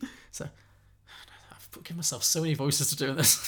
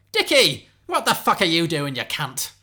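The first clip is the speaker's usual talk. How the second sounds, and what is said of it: Convincing put-on Cockney accent. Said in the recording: “This Cockney accent is nailed on, isn't it? ... That was pretty good that time.”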